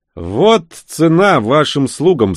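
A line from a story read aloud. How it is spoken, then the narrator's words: Insolent, through gritted teeth. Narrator (Russian): с наглой ухмылкой процедил я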